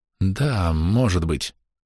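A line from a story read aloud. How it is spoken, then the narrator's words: Mumbled. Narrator (Russian): пробормотал Дик Сэнд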